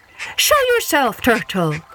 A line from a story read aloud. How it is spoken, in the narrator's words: they cried